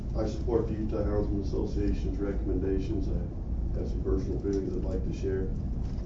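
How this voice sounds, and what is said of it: Voice in poor condition. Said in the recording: “I apologize for my voice. It's been a tough week.”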